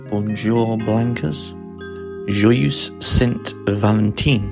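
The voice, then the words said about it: Put-on French accent. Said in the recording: “keep to theme with a French accent”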